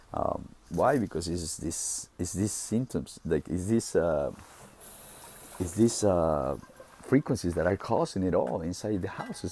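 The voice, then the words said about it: Deep, congested voice. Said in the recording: “I'm starting to have like a little drippery nose again ... my throat started to uh, uh, have a little ... my voice is very deep”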